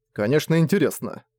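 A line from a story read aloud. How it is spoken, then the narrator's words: Amused snort. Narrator (Russian): хмыкнул Зориан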